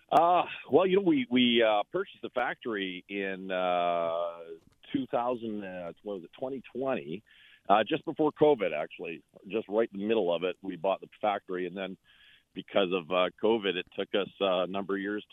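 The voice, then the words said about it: Slight northern North American accent. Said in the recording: “I'm hearing a bit of an accent in your voice. As a former Minnesotan, I'm hearing the great North country.”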